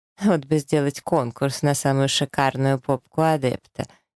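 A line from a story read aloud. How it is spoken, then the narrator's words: Giggling. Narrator (Russian): хихикает еще кто-то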